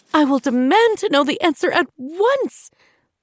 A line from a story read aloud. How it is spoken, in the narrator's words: the queen shouted, more angry than scared at the thought of her children going out at night alone